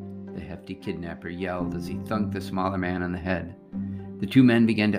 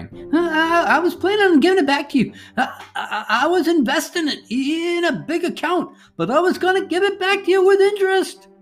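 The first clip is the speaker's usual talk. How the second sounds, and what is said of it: High-pitched stuttering twang. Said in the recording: “the little man stuttered in a high-pitched twang”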